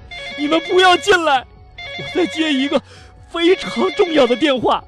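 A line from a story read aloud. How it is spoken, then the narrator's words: Frightened hurried shout. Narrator (Chinese): 这西姆啊，吓得赶紧喊道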